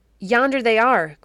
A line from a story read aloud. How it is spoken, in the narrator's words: cried a sudden voice behind Baron Henry of Trutstraten